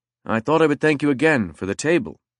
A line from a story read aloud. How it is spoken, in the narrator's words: he said